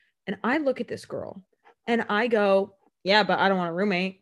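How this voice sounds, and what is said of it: Usual voice. Nothing is said of it.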